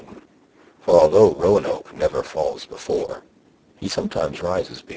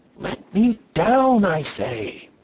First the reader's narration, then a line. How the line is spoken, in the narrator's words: screamed Katie